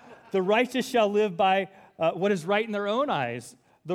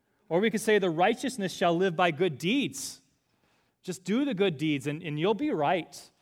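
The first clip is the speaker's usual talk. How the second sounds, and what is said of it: Minnesota accent drifting into Scottish. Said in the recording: “Why do I have a Minnesota accent? ... I think I was going into Scottish there from Minnesota. ... Oh, because there's R's in here, so I could sound Scottish.”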